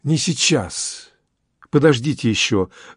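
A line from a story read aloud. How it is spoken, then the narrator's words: Trembling, passionate voice. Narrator (Russian): дрожащим голосом, сама охваченная страстью, промолвила Инесса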